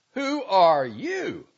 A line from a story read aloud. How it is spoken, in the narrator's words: I shouted